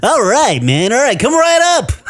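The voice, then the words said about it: Chipper radio announcer voice. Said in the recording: “He's got that radio announcer voice ... he sounds chipper ... He's got a good voice.”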